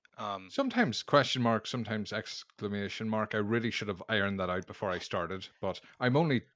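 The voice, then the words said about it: Accent that sounds older. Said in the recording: “It's the accent. It makes me sound older.”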